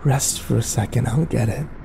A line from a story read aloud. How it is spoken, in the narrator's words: the voice told me calmly